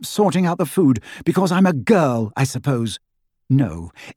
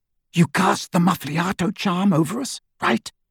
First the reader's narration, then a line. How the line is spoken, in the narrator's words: He whispered to Hermione